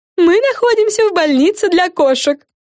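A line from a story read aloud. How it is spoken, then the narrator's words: Joyful. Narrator (Russian): радостно начала Френ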